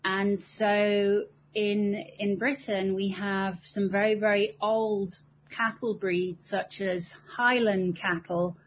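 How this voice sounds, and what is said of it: British accent. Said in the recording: “I am obviously British from my accent.”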